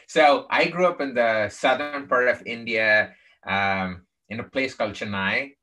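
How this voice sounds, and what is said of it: Non-native English accent. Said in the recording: “from my tech Texas accent, you know I was not born in the United States”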